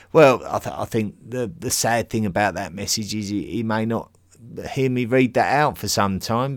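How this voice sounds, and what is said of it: Essex English accent. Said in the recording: “love your Essex accent”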